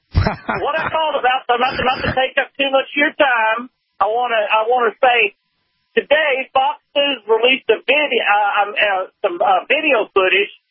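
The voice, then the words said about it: Texas hillbilly accent. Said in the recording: “I may sound like a hillbilly ... a Texas accent”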